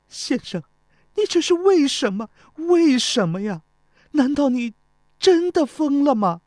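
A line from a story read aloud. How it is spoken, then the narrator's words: Weeping. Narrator (Chinese): 钟离秋不住地流泪，哭着说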